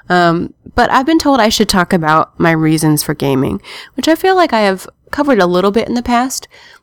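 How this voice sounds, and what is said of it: Sounds tired or sick, slight cold. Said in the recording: “I've been told I'm sounding tired or sick. ... I have a little bit of a cold”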